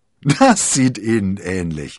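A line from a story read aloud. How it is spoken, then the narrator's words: Laughing. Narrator (German): lachte D'Artagnan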